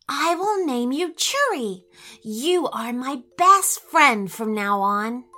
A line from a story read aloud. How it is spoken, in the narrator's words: she whispered